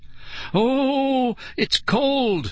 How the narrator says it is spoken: Nicole wailed

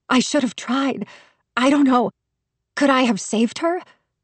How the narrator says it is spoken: My voice was strained and muffled against my palms

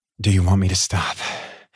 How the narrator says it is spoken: He asked, breathlessly

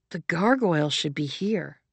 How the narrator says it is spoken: Leto said

